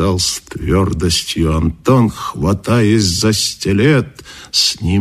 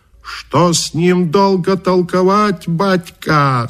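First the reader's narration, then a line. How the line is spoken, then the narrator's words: Shouted. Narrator (Russian): закричал Каракача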